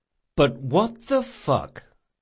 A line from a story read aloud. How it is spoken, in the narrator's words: he said slowly